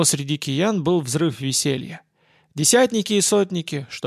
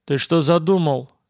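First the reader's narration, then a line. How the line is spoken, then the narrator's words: Stern question. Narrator (Russian): спросил строго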